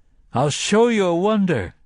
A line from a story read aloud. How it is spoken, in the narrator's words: he cried at them